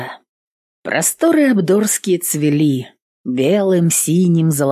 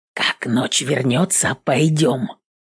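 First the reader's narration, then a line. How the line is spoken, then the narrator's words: Whispering. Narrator (Russian): Двое лопоухих шептались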